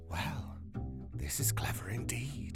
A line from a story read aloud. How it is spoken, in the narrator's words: one of the visitors whispered